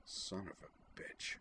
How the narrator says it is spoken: muttered

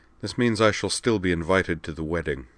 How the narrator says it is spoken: said dryly

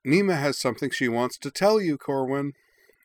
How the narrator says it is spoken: said Lakva cheerfully from the hall

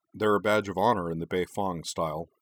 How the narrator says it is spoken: he replied dryly

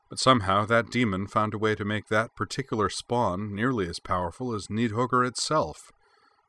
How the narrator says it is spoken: Frey said grimly

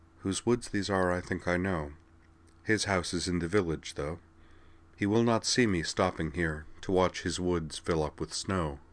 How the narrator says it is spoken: Quietly she murmured

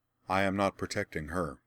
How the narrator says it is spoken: Laura replied calmly

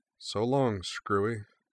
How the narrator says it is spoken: she muttered

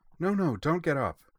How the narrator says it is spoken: the Duchess told her urgently

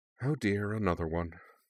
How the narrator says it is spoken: she murmured

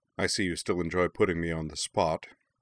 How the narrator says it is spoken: Zuko remarked dryly

